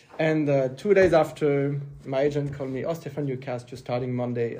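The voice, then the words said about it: French accent speaking English. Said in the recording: “I'm French. My accent is not that great.”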